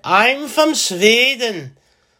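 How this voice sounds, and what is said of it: Put-on Swedish accent. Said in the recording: “I'm just full of impersonations today... Imagine that's how they really talked.”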